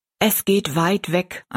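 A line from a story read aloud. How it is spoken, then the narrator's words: Plain answer. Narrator (German): antwortete Tobi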